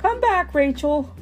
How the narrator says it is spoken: Coach Jesse shouted from the other side of the court

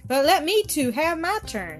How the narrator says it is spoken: cried

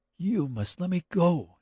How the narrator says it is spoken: she cried wildly

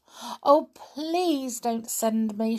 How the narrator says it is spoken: begged

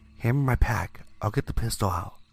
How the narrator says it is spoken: whispered, trying not to show any fear

